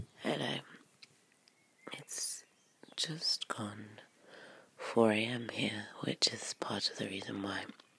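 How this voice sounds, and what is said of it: Quiet, early-morning first-words voice. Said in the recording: “my voice sounds the way it does, I guess. Because this is the first time I've spoken today... I'm trying to be a bit quiet”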